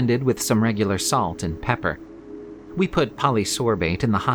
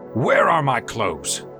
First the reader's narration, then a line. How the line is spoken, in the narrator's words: Alfred bellowed